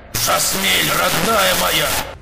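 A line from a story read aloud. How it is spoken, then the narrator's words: Shouted upward. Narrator (Russian): крикнул в ответ Понтер, подняв голову к потолку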